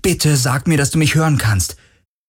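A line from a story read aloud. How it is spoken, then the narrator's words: Calling again. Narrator (German): rief er wieder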